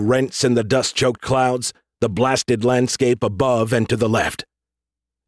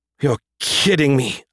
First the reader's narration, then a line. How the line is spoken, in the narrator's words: Irene groaned